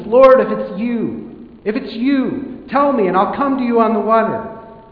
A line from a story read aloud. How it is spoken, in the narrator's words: He called out to Jesus